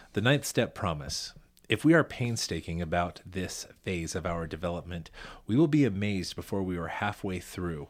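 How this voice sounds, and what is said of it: Announcer-style radio voice. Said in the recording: “please use your very best radio voice ... My very best radio voice.”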